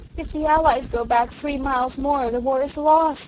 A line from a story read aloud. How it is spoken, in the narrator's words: she wailed